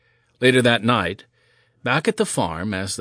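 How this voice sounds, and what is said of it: Usual voice. Nothing is said of it.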